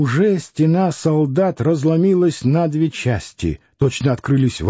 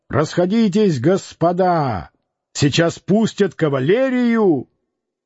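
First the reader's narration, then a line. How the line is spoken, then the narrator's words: Loud shout. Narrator (Russian): громко закричал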